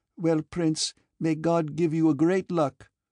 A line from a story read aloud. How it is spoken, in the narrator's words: said Matrena in her gypsy accent